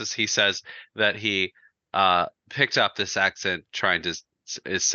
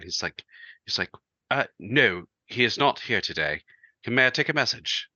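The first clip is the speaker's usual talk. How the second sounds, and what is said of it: Exaggerated British accent. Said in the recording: “his British accent ... he has that kind of British accent ... it's ridiculous ... it's full blown British accent”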